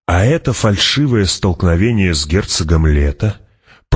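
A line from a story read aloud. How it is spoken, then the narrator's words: Purring. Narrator (Russian): промурлыкал император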